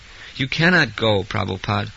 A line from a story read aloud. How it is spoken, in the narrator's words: they cried in anxious grief